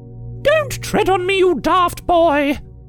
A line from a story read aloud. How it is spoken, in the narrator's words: Elizabeth cackled